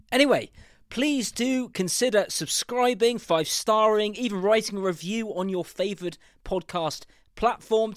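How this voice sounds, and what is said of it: Southern English accent, not Geordie. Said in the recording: “I haven't got a Geordie accent ... I haven't got a Newcastle accent ... the accent, southern accent, stuck”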